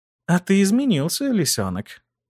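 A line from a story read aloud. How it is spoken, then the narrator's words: Purring. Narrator (Russian): промурлыкала она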